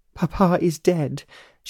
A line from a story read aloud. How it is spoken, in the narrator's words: sobbed